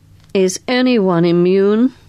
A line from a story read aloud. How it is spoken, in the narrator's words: said Carstairs dryly